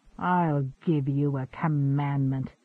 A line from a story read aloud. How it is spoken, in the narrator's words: he snarled